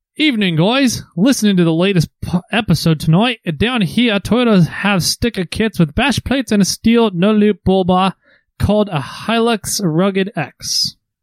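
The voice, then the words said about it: Put-on Australian accent. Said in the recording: “that's as much as my Australian accent I'm going to go with”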